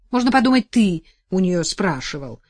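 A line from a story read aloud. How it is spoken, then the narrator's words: Snapping. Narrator (Russian): огрызнулась супруга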